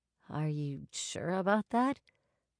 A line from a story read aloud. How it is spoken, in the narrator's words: Tara muttered under her breath